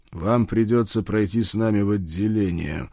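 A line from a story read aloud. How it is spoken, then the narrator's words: Growled, suppressed hatred. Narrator (Russian): с трудом сдерживая ненависть в голосе, прорычал я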